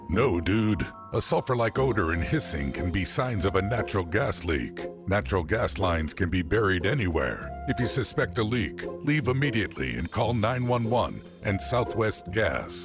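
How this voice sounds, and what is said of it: Deep narrator voice. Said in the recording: “deep voice narrator”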